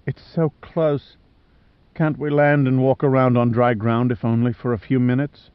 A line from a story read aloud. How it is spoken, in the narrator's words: She said it so calmly, so rationally, in her Australian twang